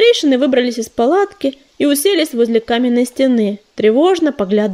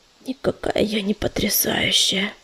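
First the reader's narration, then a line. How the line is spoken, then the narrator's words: Silent sigh. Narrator (Russian): беззвучно вздохнула Листвичка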